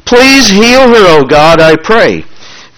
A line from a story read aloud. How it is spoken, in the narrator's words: Moses cried out to the Lord, saying